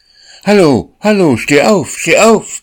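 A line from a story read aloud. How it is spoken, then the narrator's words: Call out. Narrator (German): rief der Junge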